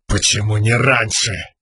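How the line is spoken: Angry question. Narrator (Russian): сердито спросил Далинар

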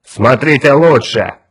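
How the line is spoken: Shout. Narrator (Russian): крикнул Улькворн

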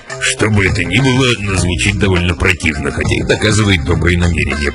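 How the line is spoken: Grumbling. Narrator (Russian): проворчал Гэт

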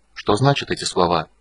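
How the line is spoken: Breaking whisper. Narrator (Russian): срывающимся шепотом стал переводить

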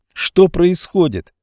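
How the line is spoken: Boy shouting. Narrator (Russian): закричал мальчик

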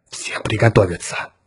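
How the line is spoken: Quiet command. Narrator (Russian): тихо скомандовал он

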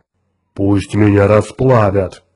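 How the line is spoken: Deep booming drone. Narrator (Russian): прогудел Грег

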